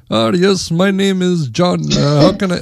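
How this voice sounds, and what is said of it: Put-on heavy Indian accent. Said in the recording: “the Indian guy, hardcore accent”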